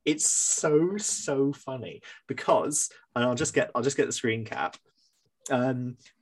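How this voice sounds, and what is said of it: Usual voice. Nothing is said of it.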